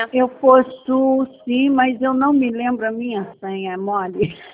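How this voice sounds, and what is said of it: Carioca Brazilian Portuguese accent. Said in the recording (Portuguese): “A senhora é carioca, né? ... Só pelo sotaque.”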